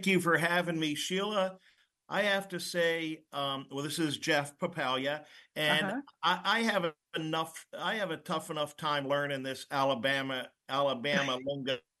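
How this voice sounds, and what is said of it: Northeastern US accent. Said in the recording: “being a Northeast guy ... this Northeast accent just doesn't do it.”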